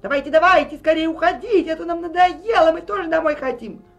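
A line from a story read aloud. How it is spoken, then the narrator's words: Man shouting. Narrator (Russian): Поляк в последний раз что-то прокричал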